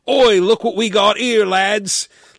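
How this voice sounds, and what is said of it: Put-on South London accent. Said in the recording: “Everybody talks like they're from South London or something”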